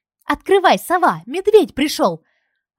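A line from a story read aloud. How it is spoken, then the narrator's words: Happy yelling. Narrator (Russian): орала довольная Зина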